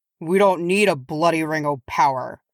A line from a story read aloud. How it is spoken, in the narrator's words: growled Oin